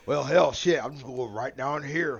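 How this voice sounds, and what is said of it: Exaggerated bad Southern accent. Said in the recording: “my bad Texan, a little bit of Florida, just a shit Southern accent”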